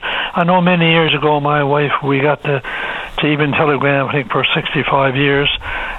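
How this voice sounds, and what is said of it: Voice slightly off, post-illness. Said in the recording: “my voice is a bit off because I just recovered from the flu”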